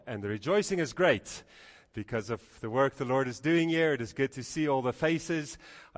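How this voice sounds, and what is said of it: Mixed Dutch, Canadian, Afrikaans accent. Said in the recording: “why does he sound so strange? My accent is all messed up. It's a mixture of Dutch, Canadian, and actually Afrikaans.”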